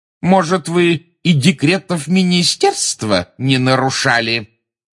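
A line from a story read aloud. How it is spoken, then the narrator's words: Angry correction. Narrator (Russian): сердито поправился Фадж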